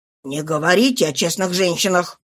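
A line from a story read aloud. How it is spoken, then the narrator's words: Rough, rude voice. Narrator (Russian): грубо сказал он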